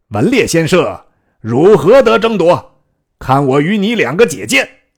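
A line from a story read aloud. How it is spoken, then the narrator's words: Stern shout. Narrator (Chinese): 又一将厉声曰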